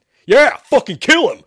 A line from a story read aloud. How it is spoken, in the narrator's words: Shepard shouted